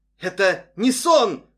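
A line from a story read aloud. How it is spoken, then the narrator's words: Sudden shout. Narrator (Russian): вдруг крикнул Нэнси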